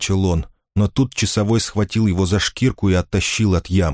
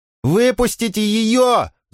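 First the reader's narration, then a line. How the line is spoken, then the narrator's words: Shouting. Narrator (Russian): закричал он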